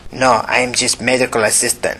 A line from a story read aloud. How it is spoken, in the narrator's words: said the young man in a heavy Asian accent